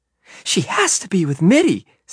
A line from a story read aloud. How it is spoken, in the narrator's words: said Emma excitedly